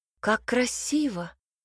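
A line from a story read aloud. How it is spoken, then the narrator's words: Exclaiming. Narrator (Russian): воскликнула Ирис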